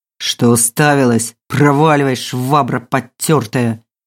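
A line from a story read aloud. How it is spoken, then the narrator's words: Angry hiss. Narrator (Russian): злобно прошипел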